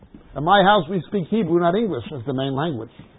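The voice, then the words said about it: American accent. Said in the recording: “My accent is Robert De Niro, Barbara Streisand, Bugs Bunny, James Cagney ... a Yank cum Israeli”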